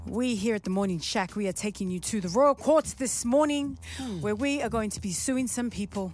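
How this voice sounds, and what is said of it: Newly learned put-on accent. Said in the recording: “Stop laughing at my accent. I just learned it in 2 minutes.”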